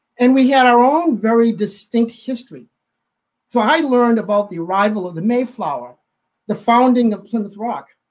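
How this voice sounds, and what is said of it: Massachusetts accent. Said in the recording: “if you can't tell from my accent, I'm from Massachusetts”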